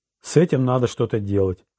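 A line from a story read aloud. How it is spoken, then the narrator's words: Sighing. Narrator (Russian): вздохнул Ролан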